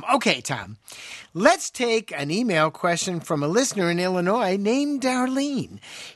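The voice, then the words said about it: Announcer-style radio voice. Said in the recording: “use your best radio voice.”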